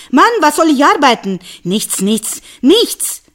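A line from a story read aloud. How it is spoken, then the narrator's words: Woman shouting after someone. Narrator (German): Seine Frau aber schrie ihm nach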